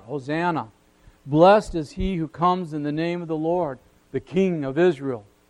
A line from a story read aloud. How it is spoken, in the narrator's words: the multitude cried out